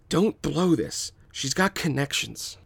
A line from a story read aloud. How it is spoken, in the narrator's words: Jan whispers to his brother